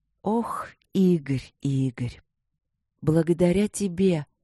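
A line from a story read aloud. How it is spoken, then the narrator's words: Quiet speech, queen. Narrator (Russian): королева говорила так же тихо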